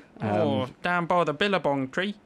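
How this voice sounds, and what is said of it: Put-on Australian accent, Cockney-like. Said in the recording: “My Australian's accent's a bit like Cockney, isn't it?”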